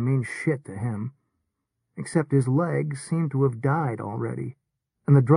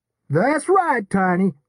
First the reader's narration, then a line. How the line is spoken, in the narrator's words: a kicker bellowed